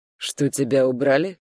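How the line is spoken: Calm. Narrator (Russian): Спокойно закончил он

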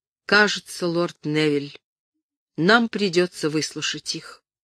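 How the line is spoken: Hesitant, quiet. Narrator (Russian): Герцог помедлил, затем тихо сказал

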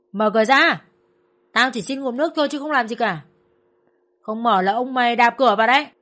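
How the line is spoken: Shouted. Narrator (Vietnamese): Đồng thời hắn quát

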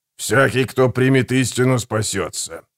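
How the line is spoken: Hoarse wheeze. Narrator (Russian): прохрипел Гегель

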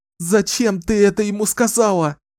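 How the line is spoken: Sobbing. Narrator (Russian): зарыдала она

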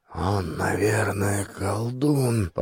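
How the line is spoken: Mumbling. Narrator (Russian): пробормотал мой Керл Сигурд

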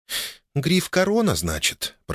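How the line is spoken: Muttered. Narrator (Russian): пробормотала Ольга

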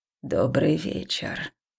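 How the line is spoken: Slightly creaky, old voice. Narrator (Russian): поприветствовала она меня чуть скрипучим, неожиданно старческим голосом

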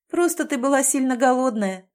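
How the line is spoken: Laughing. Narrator (Russian): рассмеялась Галя

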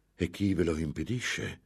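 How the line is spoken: Exclaiming. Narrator (Italian): esclamò Ambrosio

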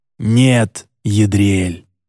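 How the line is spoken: Frowning hiss. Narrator (Russian): прошипел нахмурившийся Энрике

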